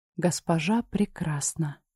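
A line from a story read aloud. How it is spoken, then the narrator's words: Breathless. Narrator (Russian): выдохнула Линда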